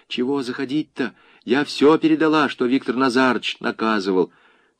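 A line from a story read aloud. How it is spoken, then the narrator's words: Whispered. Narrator (Russian): Маша шепотом произнесла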